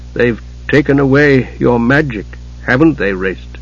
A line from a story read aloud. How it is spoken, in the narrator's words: He said softly